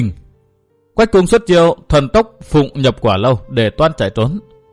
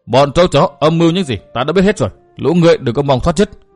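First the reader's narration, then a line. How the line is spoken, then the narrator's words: Harsh, menacing. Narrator (Vietnamese): Trúc Bạch gằn giọng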